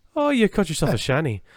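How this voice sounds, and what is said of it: Put-on Irish accent. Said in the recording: “That sounds so Irish.”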